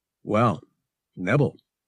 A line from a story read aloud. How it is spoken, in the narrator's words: he said